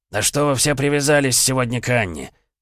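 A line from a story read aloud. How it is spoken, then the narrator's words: Growled. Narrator (Russian): прорычал Маркелов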